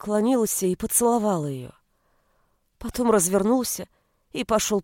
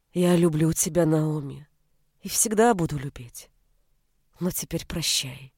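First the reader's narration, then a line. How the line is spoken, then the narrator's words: Affectionate voice. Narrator (Russian): Ласковым голосом Элли произнес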